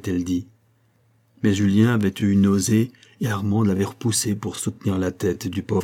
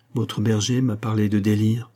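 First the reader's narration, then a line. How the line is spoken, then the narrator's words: Plain question. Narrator (French): demanda-t-il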